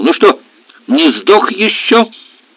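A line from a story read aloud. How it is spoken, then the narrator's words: Loud laughter. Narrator (Russian): Хохотал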